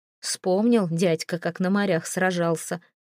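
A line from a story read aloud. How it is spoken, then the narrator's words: Snort. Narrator (Russian): хмыкнул Свен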